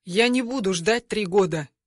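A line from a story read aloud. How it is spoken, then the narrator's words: Calm man. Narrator (Russian): спокойно говорит этот мужик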